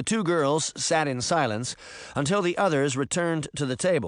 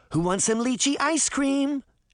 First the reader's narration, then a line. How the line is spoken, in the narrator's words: Daphne cried